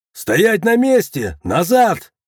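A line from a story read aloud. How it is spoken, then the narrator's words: Guard's shout. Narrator (Russian): крикнул охранник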